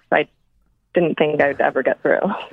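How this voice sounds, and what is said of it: Shaky, nervous voice. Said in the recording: “my voice sounds a little shaky and nervous”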